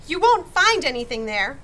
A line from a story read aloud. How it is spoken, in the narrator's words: called desperately